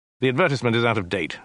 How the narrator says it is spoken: snapped Dirk

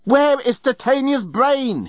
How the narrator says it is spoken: he yelled

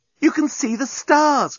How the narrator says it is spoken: cried Nettie

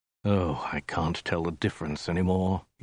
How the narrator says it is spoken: he said with a sigh

